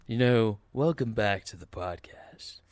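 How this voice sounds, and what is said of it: Lowered deep radio voice. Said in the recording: “lower your voice when you do the podcast ... it's a radio voice”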